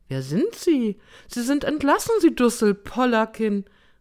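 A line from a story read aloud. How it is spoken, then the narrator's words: Shouted. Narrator (German): rief sie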